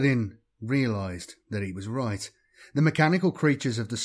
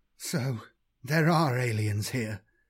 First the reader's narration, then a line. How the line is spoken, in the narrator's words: he said in a tremulous voice